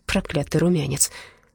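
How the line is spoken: Quiet. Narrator (Russian): Она тихо проговорила

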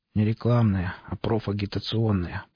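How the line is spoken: Grumbling. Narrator (Russian): пробурчал Володя

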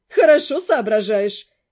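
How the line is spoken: Laughing praise. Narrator (Russian): все еще, смеясь, похвалила Нед

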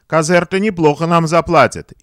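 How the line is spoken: Joyful laughter. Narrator (Russian): и оба радостно рассмеялись

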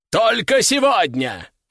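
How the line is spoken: Shouting. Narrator (Russian): заорал распорядитель

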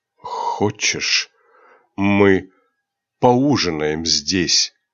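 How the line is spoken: Hoarse question. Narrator (Russian): хриплым голосом спросил Рионар

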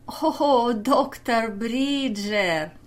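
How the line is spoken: Laughing. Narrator (Russian): Кауфман засмеялся

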